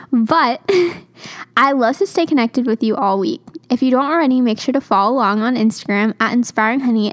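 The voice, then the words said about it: Rough, raspy voice from cold. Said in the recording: “I have a little bit of a cold, so my voice sounds a little bit rougher than it normally does. It sounds a little bit raspy”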